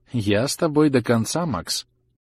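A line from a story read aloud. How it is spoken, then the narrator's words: Level, even voice. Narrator (Russian): ровным голосом сказала она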